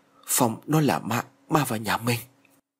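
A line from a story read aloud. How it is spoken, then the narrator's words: Trembling mutter. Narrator (Vietnamese): ông run rẩy lẩm bẩm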